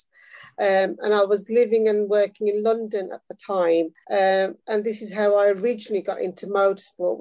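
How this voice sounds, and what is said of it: English Midlands accent. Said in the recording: “I'm originally from the Midlands. You can probably tell from my accent.”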